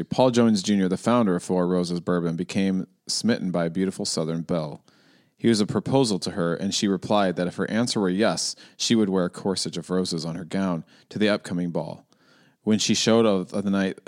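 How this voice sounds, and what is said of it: Flat monotone reading voice. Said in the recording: “I'm going to try to do Cole Cuchna monotone ... bad Cole Cuchna impersonation ... not a good Cole Cuchna impersonation. But I was trying to read monotone”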